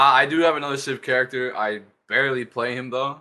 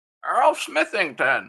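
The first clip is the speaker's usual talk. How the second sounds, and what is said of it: Frail old man character voice. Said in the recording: “It's just an old man named Earl Smithington. He's just like some frail old man. ... can you do his voice? ... That's exactly what I wanted it to sound like. It's so good.”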